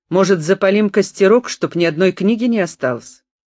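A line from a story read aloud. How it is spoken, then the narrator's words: Growl. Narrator (Russian): Он, обернувшись, зарычал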